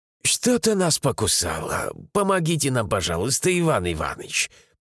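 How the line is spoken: Wheezy, hoarse. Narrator (Russian): просипел Рамиль

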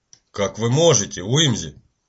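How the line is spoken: Reproachful grumble. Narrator (Russian): Укоризненно проворчал Паркер

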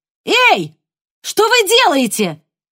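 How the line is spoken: Distant woman's shout. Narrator (Russian): крикнула женщина где-то дальше по улице

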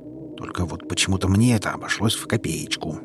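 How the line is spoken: Grumbled. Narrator (Russian): буркнул Гарри

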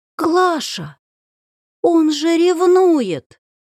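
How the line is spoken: Groaning. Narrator (Russian): Я застонала

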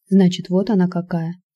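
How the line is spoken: Quiet speech. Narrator (Russian): тихо произнесла Татьяна

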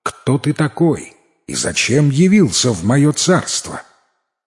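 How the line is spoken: Commanding tone. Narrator (Russian): Владычица сказала властным тоном

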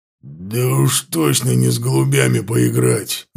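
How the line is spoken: Growling. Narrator (Russian): рыкнул ворк

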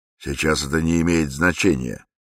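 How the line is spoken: Plain. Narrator (Russian): сказал Высокий

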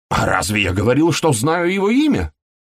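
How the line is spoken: Heated exclamation. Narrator (Russian): С горячностью воскликнул Вудкок

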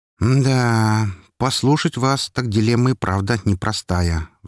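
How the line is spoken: Sigh. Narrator (Russian): вздохнул я

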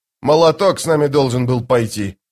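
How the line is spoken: Grumbling. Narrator (Russian): проворчал Бакланд

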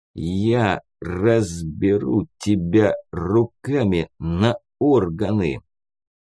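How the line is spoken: Slow through gritted teeth. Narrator (Russian): медленно процедил сквозь зубы Бусел

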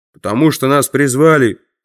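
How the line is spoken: Deep bass. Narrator (Russian): пробасил кто-то

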